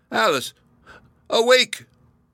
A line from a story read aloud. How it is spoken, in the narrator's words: cried her father